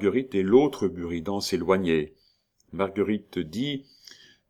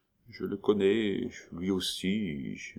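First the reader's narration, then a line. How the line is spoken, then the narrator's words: Murmur with odd inflection. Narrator (French): murmura le Buridan avec un singulier accent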